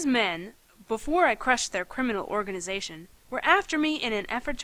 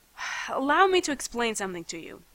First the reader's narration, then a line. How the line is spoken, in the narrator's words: I sighed